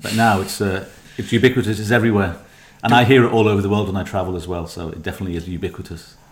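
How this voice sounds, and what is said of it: Melodic Liverpool Scouse accent. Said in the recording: “done by a Scouser ... the kind of melodic tone of everything that's going on ... the Liverpool accent”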